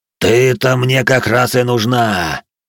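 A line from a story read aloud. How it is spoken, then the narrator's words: Guttural roar. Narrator (Russian): Утробно проревел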